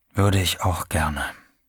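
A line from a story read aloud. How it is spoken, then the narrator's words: Quiet. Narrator (German): sagte er leise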